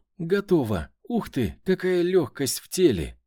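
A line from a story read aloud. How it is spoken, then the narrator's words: Sharp cry. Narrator (Russian): вскрикнула Ксения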